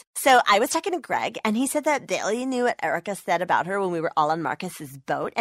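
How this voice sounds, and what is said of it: Reality TV star voice. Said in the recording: “my impression of a reality TV star”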